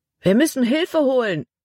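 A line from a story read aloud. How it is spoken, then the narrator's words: Call. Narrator (German): rief Caleb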